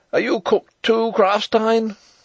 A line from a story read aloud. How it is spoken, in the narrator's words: he cried